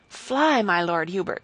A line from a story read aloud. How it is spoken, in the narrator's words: he cried